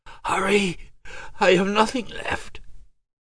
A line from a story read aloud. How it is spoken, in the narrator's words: In a hoarse voice she said